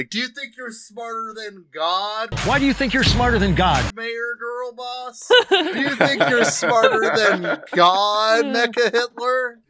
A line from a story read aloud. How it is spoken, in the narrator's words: People are walking around Mammonburg shouting